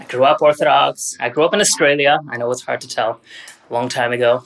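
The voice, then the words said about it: Indeterminate mid-Atlantic, non-American accent. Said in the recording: “the accent is some sort of like mid-Atlantic, South Pacific, Euro something. I don't know. It's like indeterminate, non-American. ... Hence the messed up accent.”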